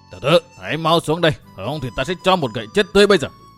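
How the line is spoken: Fiery shout, slightly frightened. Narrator (Vietnamese): đại sư này bản tính dũng mãnh, nóng như lửa, tuy có đôi chút kinh hãi vẫn cất giọng quát tháo

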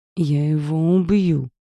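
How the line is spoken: Through gritted teeth. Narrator (Russian): процедил Габриэль

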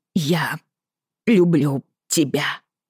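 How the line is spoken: Through gritted teeth. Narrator (Russian): сказала она сквозь зубы

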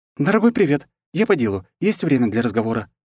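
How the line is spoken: Cheerful rapid chatter. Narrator (Russian): весело протараторила она

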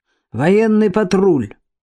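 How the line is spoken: Rude answer. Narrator (Russian): грубо ответили

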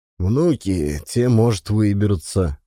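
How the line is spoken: Gloomy remark. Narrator (Russian): мрачно заметил Мухин

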